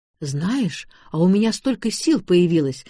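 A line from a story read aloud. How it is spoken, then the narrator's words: Exclaimed. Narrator (Russian): воскликнула будущая свекровь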